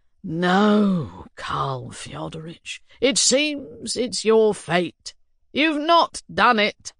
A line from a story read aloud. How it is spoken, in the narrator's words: father was relentless, and answered gloomily as before